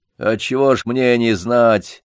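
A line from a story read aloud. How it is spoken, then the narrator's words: Rough grumble. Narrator (Russian): грубо проворчал Ермола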